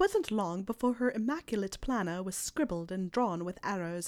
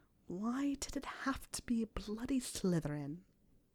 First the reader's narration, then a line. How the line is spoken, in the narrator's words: muttered at the library ceiling